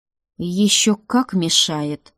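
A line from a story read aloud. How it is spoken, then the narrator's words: Growl. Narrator (Russian): рыкнул он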